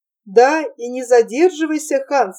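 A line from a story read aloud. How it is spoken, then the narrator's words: Laughing. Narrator (Russian): рассмеялась Гретель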